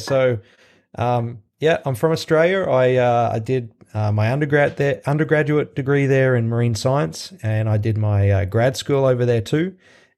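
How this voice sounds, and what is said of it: Australian accent. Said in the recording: “you got a little bit of an accent... You're actually from Australia”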